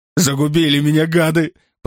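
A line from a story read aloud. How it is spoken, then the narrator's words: Moaning. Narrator (Russian): простонал тот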